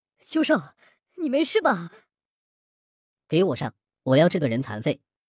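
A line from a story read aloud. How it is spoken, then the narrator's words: Angry. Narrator (Chinese): 秋明怒声道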